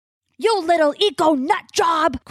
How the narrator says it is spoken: Crow yells

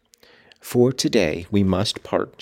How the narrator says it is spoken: she said

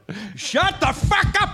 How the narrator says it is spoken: I yelled

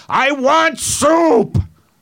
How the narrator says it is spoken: He just kept yelling out

